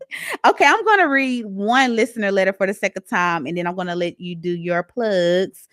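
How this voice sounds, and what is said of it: Strong Southern US accent. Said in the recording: “I have a very southern accent. I'm from Mississippi.”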